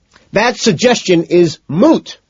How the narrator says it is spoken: McDermott screams

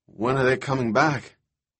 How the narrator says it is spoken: In a forlorn voice, said

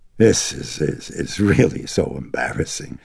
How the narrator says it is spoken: the detective wheezed

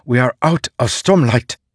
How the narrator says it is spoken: Sigzil hissed

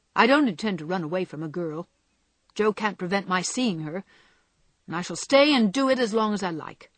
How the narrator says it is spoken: interrupted Laurie in a defiant tone

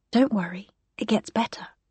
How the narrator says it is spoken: whisper

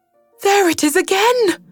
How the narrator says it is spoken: She cried, alert once more

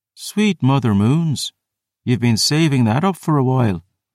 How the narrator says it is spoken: she purred

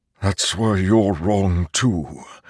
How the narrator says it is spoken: the Stormfather mumbled

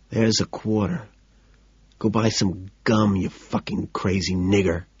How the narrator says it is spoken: Calmly, I whisper

